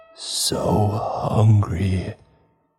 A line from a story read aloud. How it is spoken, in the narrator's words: murmured